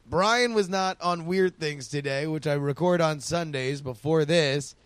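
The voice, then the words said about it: Hoarse, strained voice. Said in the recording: “my voice is kind of wrecked. I've been doing nothing but talking.”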